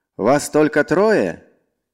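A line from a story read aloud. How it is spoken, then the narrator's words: Distant shout. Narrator (Russian): издалека крикнул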